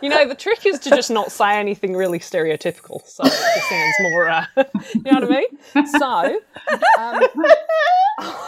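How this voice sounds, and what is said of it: Put-on Australian accent. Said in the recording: “will bust out an Australian accent ... You do a good one, though ... Your accent.”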